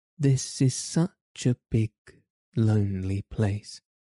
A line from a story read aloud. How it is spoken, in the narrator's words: she said slowly, as if she were turning matters over in her mind